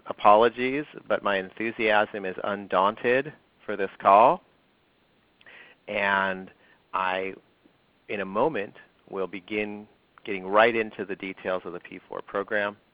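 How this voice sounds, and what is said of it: Congested, stuffy voice. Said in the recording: “I have a cold. You might hear that in my voice.”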